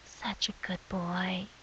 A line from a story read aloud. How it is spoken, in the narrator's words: her voice whispers from the shadows